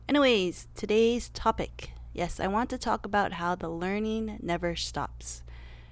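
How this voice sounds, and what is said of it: Hoarse voice from a cold. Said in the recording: “my voice is a bit eh. I am recovering from a cold slash flu situation.”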